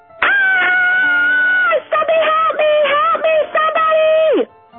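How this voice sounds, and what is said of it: Screaming for help. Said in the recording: “Why are you screaming?”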